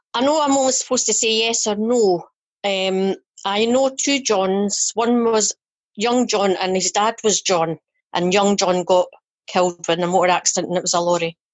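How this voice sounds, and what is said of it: Fife accent. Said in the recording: “that's a beautiful accent you've got. You're from my part of the world. ... Somebody of Fife. ... We're in Fife as well.”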